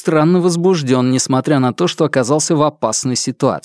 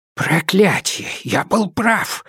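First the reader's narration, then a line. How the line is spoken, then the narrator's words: Whisper. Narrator (Russian): шепнул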